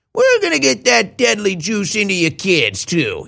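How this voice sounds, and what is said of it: Fauci impression, New York accent. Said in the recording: “Dr. Fauci. ... He's like a dirty New York... He's a crooked... He's got a New York accent.”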